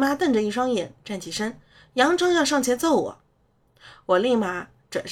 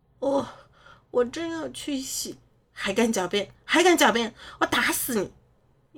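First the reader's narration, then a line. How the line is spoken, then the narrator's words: Stunned, quiet. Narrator (Chinese): 我愣在原地，小声开口道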